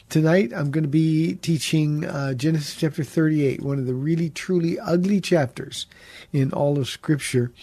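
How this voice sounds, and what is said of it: Congested voice with a cold. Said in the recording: “you can tell by my voice, I have a cold. ... if you hear any sniffing or any breaks”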